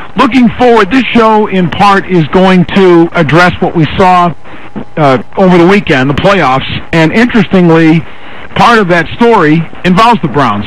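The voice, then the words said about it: Strained, under-the-weather voice. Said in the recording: “playing a little hurt, just a slight bit under the weather ... I apologize for the voice. It's not up to top level.”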